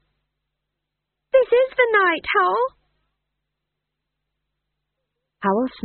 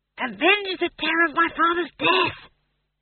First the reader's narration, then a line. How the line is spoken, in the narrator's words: he hissed